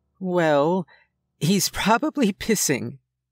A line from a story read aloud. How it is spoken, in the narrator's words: she said, hardly containing her laughter